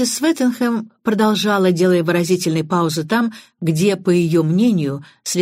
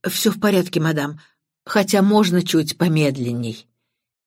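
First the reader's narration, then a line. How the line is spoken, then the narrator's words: Embarrassed mutter. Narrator (Russian): Констебль Эдвардс, человек совершенно не светский, покраснел до ушей и пробормотал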